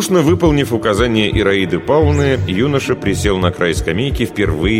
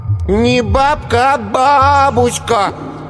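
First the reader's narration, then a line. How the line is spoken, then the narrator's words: Didactic drawl. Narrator (Russian): назидательно протянул Коленька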